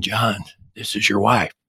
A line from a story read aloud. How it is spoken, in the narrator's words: whispering